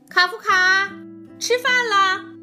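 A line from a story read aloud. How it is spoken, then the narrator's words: Mother calling again. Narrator (Chinese): 妈妈又叫了一遍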